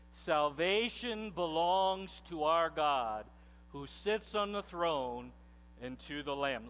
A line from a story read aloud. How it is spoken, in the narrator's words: they cried out in a loud voice